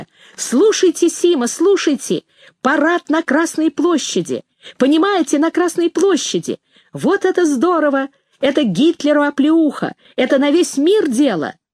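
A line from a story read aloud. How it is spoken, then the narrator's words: Shouted. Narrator (Russian): крикнув мне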